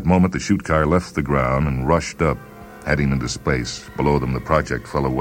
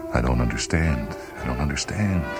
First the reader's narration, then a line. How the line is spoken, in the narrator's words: he murmured